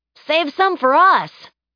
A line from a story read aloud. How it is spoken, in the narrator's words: Samantha shouted